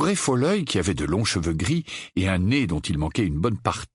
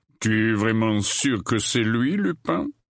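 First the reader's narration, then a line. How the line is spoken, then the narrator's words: Growling. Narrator (French): gronda-t-il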